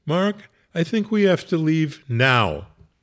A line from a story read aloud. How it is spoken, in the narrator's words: said in a fairly urgent voice